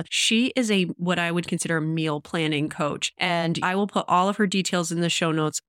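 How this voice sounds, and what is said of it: Congested voice from a cold. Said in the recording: “I do have a cold in this episode. I'm sorry if my voice is not great and we had to edit out some of the coughs”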